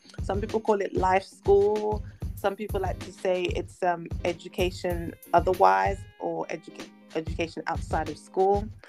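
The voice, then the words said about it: British (London) accent. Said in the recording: “they're probably picking up on your accent ... I'm in London in the United Kingdom”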